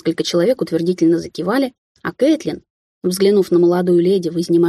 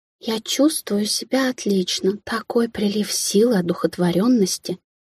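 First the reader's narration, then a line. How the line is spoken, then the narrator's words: Weak whisper, young woman. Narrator (Russian): слабо прошептала девица на выданье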